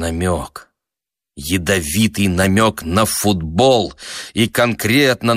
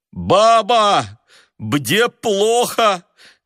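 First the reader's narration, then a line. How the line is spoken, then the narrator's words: Shout through runny nose. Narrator (Russian): крикнул он сквозь насморк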